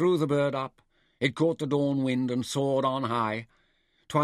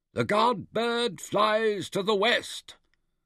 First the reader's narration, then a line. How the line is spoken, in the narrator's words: the high priest called out